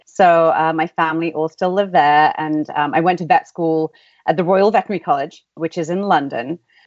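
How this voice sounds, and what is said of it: English accent. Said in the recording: “you may be able to tell from my accent, in England”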